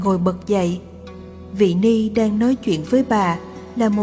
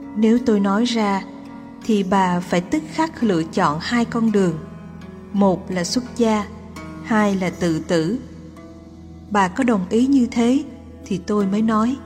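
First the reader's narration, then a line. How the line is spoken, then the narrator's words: Smiling. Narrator (Vietnamese): Vị ấy mỉm cười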